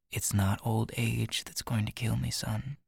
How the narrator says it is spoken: Ryder says very quietly

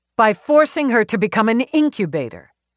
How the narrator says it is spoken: Eve snapped back

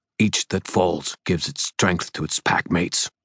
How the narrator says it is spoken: River Shoulders snarled

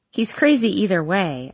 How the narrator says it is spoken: I laugh, trying to diminish the growing tension in the room

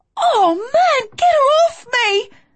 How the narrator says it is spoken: she cried

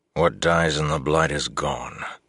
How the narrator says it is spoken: Lan said wearily

